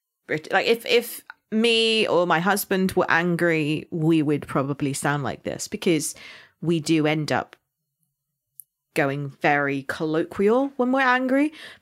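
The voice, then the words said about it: West Country Somerset accent. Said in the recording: “I am from Somerset. So my accent is more farmer / pirate.”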